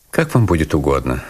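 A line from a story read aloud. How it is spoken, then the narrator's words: Dry. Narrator (Russian): сухо сказал я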